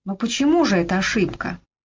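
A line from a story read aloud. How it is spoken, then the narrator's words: Impatient sigh. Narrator (Russian): Слейд нетерпеливо вздохнул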